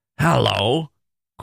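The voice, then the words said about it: Gruff growling voice. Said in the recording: “growled Scrooge in his accustomed voice, as near as he could feign it”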